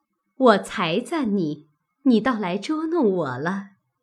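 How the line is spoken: Laughing. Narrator (Chinese): 宝钗笑道

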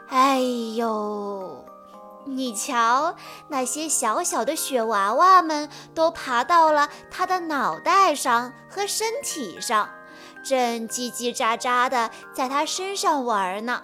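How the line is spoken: Sighing monster. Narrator (Chinese): 大雪怪叹了口气，说

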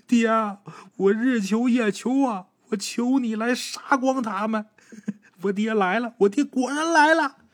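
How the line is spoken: Crying, cursing. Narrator (Chinese): 小赖子一边哭一边脏话连篇

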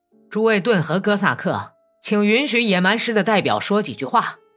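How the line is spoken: Loud shout. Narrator (Chinese): 哥萨克军官大声的喊道

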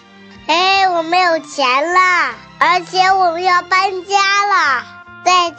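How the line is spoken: Loud. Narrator (Chinese): 咪咪大声地对他说

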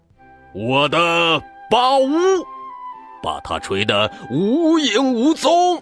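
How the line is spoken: Elephant roaring. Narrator (Chinese): 大象大吼道

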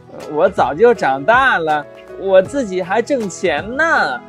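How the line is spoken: Cheerful laughing voice. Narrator (Chinese): 罗罗笑嘻嘻地说

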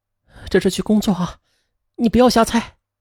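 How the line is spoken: Retorting. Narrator (Chinese): 他反驳道

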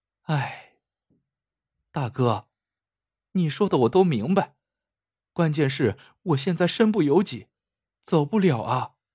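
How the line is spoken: Long heavy sigh. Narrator (Chinese): 春丽 长叹了一声

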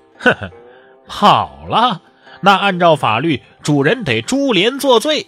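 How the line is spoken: Sneering. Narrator (Chinese): 尹公冷笑说

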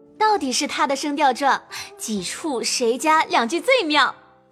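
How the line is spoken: Group, laughing. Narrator (Chinese): 众人都笑说

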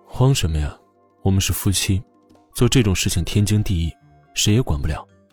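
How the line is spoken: Cool, indifferent. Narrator (Chinese): 穆萧寒淡淡的

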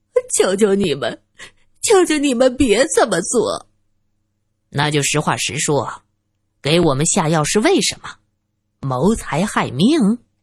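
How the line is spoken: Crying. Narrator (Chinese): 她哭着说道

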